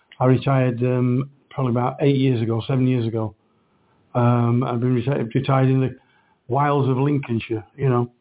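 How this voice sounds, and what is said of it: Yorkshire accent. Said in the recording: “I've still got my accent ... People still pick me up on it ... a person from Lincolnshire speaks with a Yorkshire accent”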